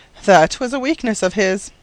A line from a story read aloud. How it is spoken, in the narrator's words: remarked Koosje dryly